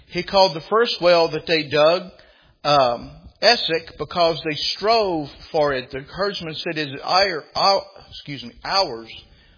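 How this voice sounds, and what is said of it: Southern American accent. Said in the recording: “My southern accent gets in the way”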